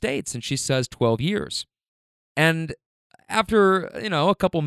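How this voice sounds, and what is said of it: Usual voice. Nothing is said of it.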